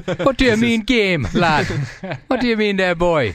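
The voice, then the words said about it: Put-on Jamaican Geordie accent. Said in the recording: “in an accent that only ... can impersonate as well as Ray Hudson, a Jamaican Geordie accent.”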